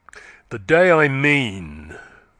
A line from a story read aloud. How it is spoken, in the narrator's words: said Yeobright, his voice growing louder and harsher